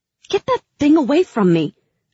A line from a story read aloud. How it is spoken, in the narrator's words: I snapped